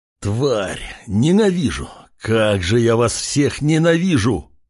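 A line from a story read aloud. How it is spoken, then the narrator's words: Furious roar. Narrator (Russian): Практически рычал от ярости крепкий мужчина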